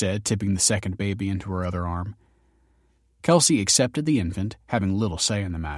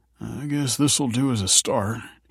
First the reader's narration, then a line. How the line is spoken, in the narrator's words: mumbled